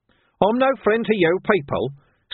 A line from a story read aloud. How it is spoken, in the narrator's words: snapped the man